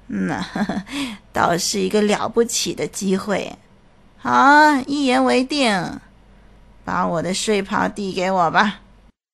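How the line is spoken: Mocking drunkard. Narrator (Chinese): 酒徒带着嘲笑说

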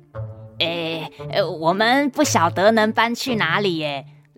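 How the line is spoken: Cheerful, giggling. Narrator (Chinese): 蚜虫们笑嘻嘻地说

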